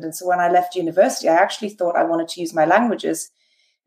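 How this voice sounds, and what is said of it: British English accent. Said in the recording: “I lived in the UK then. You can probably tell by the accent. I wasn't born in America.”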